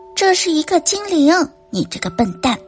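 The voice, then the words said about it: Soft whispered child's voice. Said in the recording (Chinese): “蒂姆轻声低语道”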